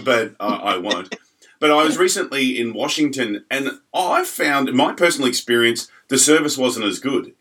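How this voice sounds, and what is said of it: Australian accent, Melbourne. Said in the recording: “you might notice my accent's a little bit different. This is based out of Melbourne, Australia.”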